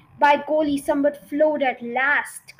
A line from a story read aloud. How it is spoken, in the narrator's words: cried